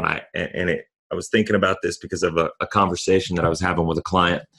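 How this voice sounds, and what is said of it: Hoarse, fading voice from cold. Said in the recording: “I'm dealing with a cold right now, and I'm losing my voice a little bit. You can probably hear it”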